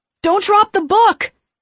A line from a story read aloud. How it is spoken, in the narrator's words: someone shouted